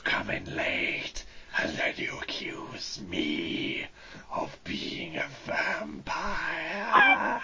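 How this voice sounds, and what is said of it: Raspy, vampire-like character voice. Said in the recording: “your voice is kind of vampiric, I would say. Raspy.”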